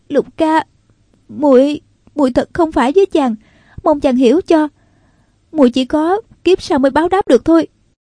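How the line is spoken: Trembling voice. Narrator (Vietnamese): Nàng nói giọng run run

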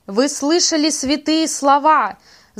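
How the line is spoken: Shouting officers. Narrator (Russian): закричали офицеры

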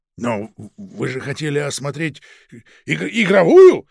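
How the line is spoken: Near shout. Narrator (Russian): почти крикнул Протасов

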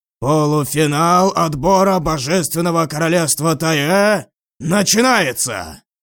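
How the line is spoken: Loud announcement. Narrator (Russian): громко объявил Джан Тань

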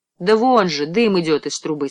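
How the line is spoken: Plain. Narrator (Russian): сказала она

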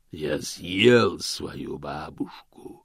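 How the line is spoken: Growl from above. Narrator (Russian): прорычал голос сверху из темноты

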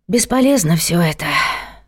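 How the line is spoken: Sighing. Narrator (Russian): вздохнула она

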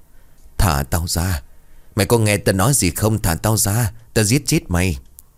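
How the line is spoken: Hoarse voice. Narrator (Vietnamese): giọng nói khàn khàn vang lên

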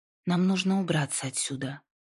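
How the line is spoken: Calm. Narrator (Russian): спокойно сказала она

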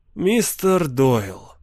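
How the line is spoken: Soft male voice. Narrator (Russian): мягко проговорил он

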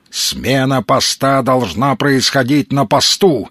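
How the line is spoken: Barking. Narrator (Russian): рявкнул Маломальский

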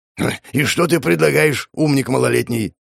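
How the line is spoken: Snorting. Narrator (Russian): фыркнул Аргус

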